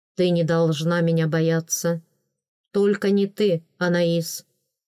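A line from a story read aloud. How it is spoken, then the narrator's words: Plain. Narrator (Russian): сказал Делаэрт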